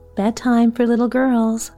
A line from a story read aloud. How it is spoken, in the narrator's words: Ma said cheerfully